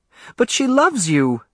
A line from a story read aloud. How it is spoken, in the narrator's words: Alice cried